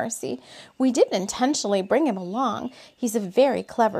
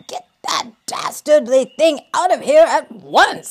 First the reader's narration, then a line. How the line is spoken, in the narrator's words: he snarled to the couple